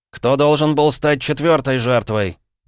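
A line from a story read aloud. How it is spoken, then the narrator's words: Sharp abrupt bark. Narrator (Russian): рявкнул я, так резко сменив тему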